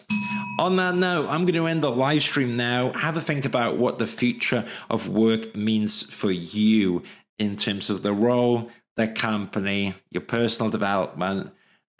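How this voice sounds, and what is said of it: Droning Welsh accent. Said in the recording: “my droning Welsh accent”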